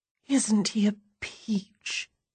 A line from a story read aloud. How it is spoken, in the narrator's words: says dreamily